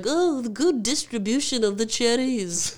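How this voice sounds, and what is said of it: Imitates another person's voice. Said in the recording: “Great impression”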